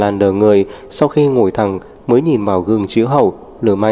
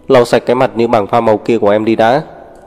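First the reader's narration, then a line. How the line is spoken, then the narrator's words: Cold command. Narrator (Vietnamese): lạnh lùng ra lệnh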